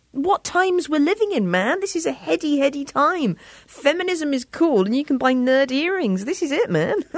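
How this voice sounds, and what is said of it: British accent. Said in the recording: “sounds so much better with her British accent”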